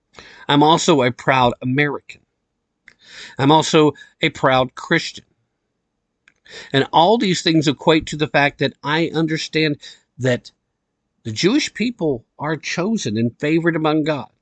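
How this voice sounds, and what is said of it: Strong East Tennessee accent. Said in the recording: “Sometimes I just bring straight up East Tennessee flavor. Sometimes I even start talking like you would never understand that I ever come from anywhere else. Sometimes I get to talking like this and I ain't putting on a voice.”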